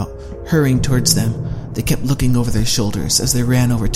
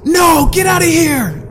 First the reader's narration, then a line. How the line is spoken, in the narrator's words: yelled Larry